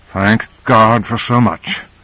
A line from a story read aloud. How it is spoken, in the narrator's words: muttered Carter